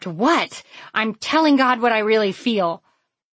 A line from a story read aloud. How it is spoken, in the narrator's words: Defensive, I snapped